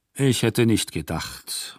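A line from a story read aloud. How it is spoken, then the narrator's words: Murmured. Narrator (German): murmelte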